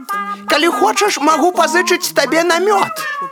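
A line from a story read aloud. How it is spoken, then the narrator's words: Shouted after someone. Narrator (Belarusian): крыкнуў Пэтсон яму на ўздагон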